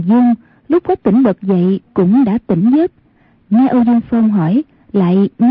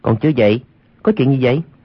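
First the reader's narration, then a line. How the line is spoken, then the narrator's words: Lowered voice. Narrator (Vietnamese): Quách Tĩnh hạ giọng nói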